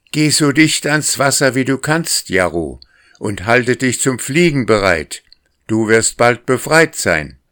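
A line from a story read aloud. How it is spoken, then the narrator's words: Little person calling out. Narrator (German): Und dieses Menschlein rief ihm zu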